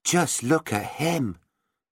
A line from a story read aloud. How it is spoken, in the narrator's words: Meg gasped at last